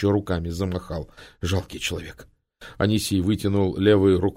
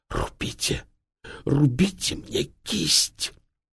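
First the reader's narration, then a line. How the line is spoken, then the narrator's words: Hoarse rasp. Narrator (Russian): Тюльпанов прохрипел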